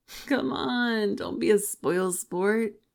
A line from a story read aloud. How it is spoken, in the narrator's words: he laughed